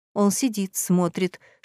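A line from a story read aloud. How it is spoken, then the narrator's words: Whispered. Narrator (Russian): шепнула она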